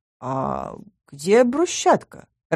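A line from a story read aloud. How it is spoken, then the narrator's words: Confused mumble. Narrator (Russian): растерянно пробормотала я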